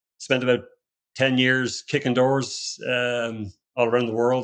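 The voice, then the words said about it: Irish accent. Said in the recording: “You can probably tell from my accent, I'm not from where I live currently in Austin, Texas... I was born and raised in Ireland”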